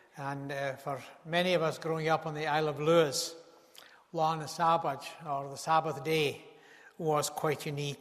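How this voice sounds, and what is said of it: Regional accent from the Isle of Lewis. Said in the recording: “if you didn't know where I come from, my accent probably betrays that”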